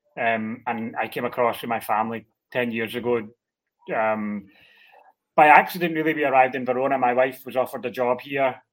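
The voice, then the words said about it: Scottish accent. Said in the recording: “I'm originally Scottish, as you maybe detect from the accent.”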